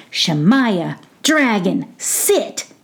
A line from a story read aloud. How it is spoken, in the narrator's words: said Mookie in his firmest voice